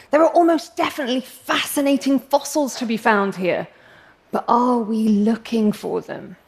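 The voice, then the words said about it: English accent. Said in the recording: “I'm English, as you can probably tell from my accent,”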